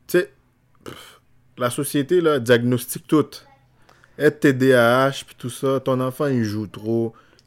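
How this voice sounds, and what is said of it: Speaks with a noticeable accent. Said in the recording (French): “comme moi j'ai un accent”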